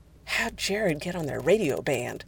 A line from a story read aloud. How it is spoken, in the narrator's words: Jensen whispered aloud